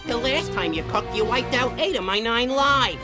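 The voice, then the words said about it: Brooklyn accent. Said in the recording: “why that cat has a Brooklyn accent.”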